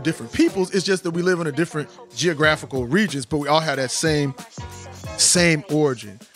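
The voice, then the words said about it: Speaks with a drawl. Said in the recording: “how I have my drawl”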